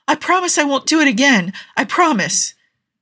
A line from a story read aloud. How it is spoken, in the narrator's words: Jensen was pleading